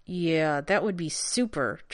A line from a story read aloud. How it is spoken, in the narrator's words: John said through gritted teeth